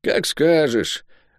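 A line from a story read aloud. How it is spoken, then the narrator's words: Tired mumble. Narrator (Russian): устало пробубнил Лук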